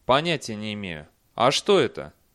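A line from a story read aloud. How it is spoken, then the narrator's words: Calm. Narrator (Russian): Он спокойно ответил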